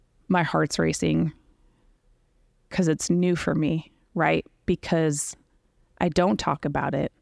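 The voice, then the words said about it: Slightly choked-up, emotional voice. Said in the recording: “I get a little choked up”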